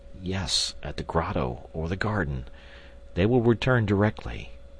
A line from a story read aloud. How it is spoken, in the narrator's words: I murmured